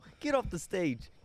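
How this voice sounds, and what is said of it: Bad put-on Brooklyn accent. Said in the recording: “My worst accent ever. ... Sounded like Brooklyn. ... I was kind of trying for that”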